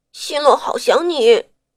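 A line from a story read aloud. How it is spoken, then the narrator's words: Hoarse, tearful. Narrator (Chinese): 新洛眼睛红了红，哑声道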